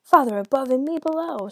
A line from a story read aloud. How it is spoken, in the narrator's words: screamed the devil